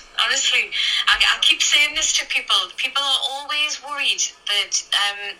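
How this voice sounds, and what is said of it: Newcastle English accent, not London. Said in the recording (Chinese): “他不是正宗的伦敦腔，他是 Newcastle 的口音”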